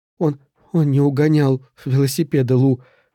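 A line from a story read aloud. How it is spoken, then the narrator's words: Sobbing. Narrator (Russian): всхлипывала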